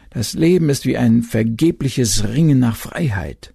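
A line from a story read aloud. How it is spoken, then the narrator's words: Moaning waves. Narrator (German): die Wogen stöhnten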